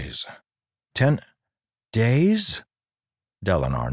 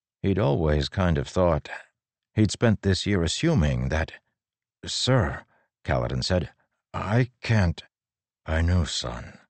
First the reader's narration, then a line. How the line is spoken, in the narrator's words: Dalinar said quietly